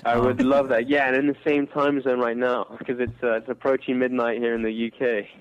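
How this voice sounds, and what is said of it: British accent. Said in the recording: “You and your saucy accent.”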